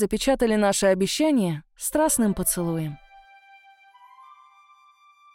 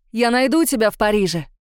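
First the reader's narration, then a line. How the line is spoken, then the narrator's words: Shouted farewell. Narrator (Russian): крикнул, прощаясь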